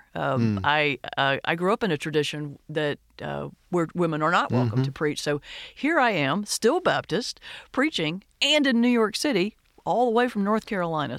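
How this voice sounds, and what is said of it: Southern American accent. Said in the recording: “you can tell by the Southern accent”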